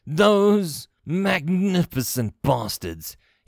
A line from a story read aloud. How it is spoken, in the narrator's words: cried